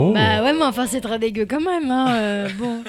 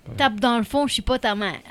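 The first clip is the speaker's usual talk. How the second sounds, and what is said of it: Put-on Québécois accent. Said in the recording (French): “Moi, je connais une expression québécoise. ... Avec l'accent, en plus.”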